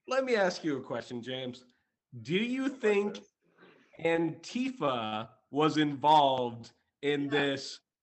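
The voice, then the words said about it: Stern teacher voice. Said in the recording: “the teacher voice is back”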